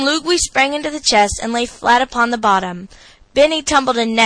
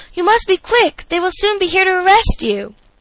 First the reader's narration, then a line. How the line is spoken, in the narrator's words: she exclaimed